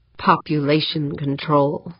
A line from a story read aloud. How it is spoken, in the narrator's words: he muttered